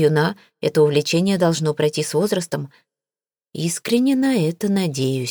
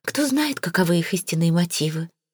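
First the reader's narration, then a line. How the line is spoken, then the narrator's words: Sighing. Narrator (Russian): вздохнула она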